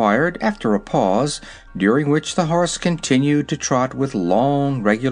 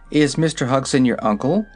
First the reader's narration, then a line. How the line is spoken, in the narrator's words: she asked